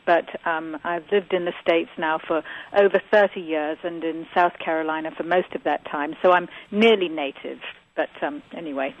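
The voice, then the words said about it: Southwest English accent. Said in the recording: “your voice sounds slightly different than your husband ... I'm from the southwest part of England. I was born in Barnstable, Devon”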